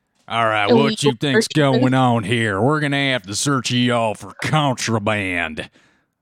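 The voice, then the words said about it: Sheriff character voice with accent. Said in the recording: “the sheriff's accent”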